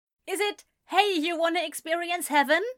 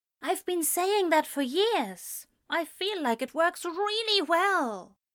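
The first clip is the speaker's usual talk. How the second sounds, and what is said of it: Lowered, quiet voice. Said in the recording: “in a lowered voice”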